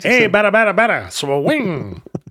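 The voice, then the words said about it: Put-on mid-Atlantic accent. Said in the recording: “I bet he had a great mid Atlantic accent... that weird Billy Crystal way of talking”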